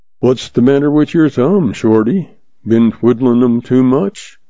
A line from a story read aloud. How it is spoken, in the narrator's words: he asked dryly, his eyes twinkling